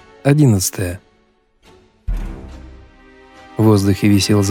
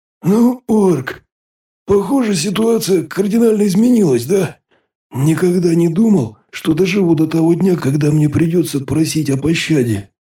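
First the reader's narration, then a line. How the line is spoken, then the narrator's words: Python's dry hoarse whisper. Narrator (Russian): прохрипел питон сухим шепотом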